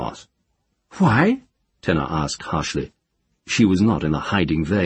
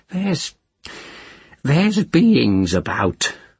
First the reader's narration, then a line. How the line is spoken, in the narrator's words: the witch said, not portentously, but uneasily